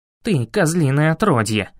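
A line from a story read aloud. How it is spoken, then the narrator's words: Growl. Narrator (Russian): рыкнул Арт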